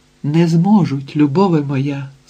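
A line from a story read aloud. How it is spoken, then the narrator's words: Plain. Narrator (Ukrainian): сказав тобі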